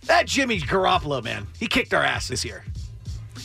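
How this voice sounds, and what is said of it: Gravelly impression of another person's voice. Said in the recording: “It's just Muggs ... with ... a gravelly ... Voice.”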